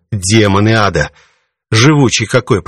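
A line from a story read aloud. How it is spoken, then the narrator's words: Whispered. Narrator (Russian): прошептал я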